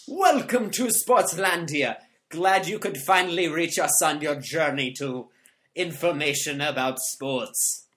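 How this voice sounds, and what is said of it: Put-on accent. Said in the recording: “I'm just trying out new accents.”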